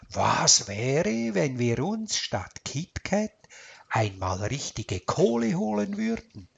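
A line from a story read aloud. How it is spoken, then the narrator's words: Quiet grumble to himself. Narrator (German): Er brummte leise vor sich hin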